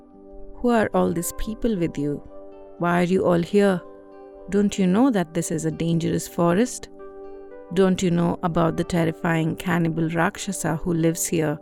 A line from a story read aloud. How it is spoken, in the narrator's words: she asked him